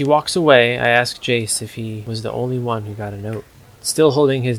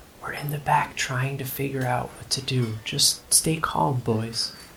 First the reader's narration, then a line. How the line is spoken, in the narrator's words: She whispers to us